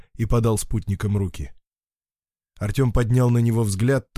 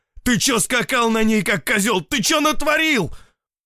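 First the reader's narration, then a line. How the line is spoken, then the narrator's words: Angry growling, cursing. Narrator (Russian): Он рычал и ругался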